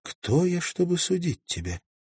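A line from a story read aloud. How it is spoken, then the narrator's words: Sad reply. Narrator (Russian): печально ответила Магдалин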